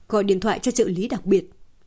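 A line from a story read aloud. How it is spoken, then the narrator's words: Heavy voice. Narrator (Vietnamese): Một người trong đó nói với giọng nặng nề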